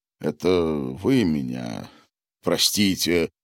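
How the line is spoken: Heavy sigh, man. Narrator (Russian): он тяжко вздохнул

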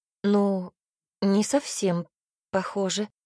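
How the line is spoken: Uncertain reply. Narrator (Russian): ответила как-то неуверенно

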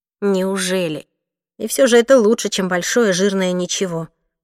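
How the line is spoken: Grumbling. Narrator (Russian): проворчала я

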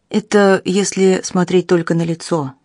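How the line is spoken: Grim. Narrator (Russian): мрачно произнес сержант

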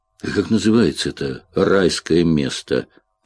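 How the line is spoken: Mumble. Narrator (Russian): пробормотал он

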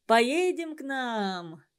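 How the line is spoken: Young man, laughing. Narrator (Russian): смеясь, предложил ей молодой якут

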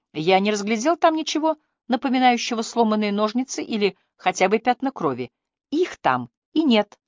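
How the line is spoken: Joyful declaration. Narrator (Russian): радостно заявила она

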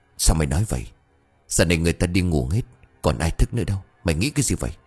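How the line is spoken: Quiet, puzzled. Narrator (Vietnamese): Tên kia cau mày tỏ ra khó hiểu, miệng nhỏ giọng

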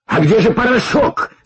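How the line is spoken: Agitated shout. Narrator (Russian): закричал он, еще больше волнуясь

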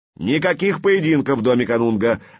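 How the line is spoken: Barking shout. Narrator (Russian): рявкнул Хюрнинг

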